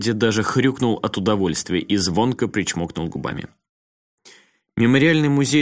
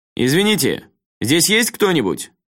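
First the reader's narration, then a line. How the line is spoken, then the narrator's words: Fairly loud question. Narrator (Russian): довольно громко спросил Рюдзи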